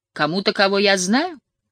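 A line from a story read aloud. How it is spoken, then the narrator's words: Happy question. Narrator (Russian): радостно спросил Робби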